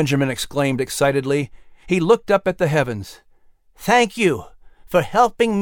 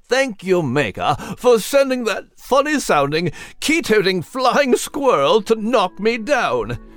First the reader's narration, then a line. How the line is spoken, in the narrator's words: Nigel exclaimed with a jolly chuckle at the top of his lungs